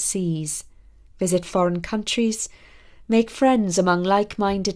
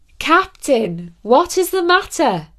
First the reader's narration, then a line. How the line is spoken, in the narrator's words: We cried up to him